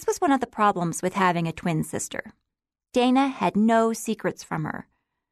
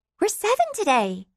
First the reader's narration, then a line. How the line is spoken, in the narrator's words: exclaimed Julia